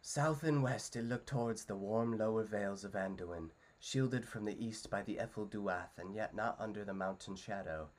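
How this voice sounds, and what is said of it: Frodo-style storytelling narrator voice. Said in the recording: “here's my best Frodo impression ... I guess just the storytelling voice, but now I got to do Frodo's storytelling”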